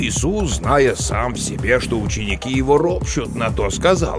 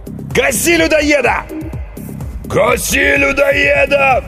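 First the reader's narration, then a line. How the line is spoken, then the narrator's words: Roaring crowd. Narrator (Russian): взревела толпа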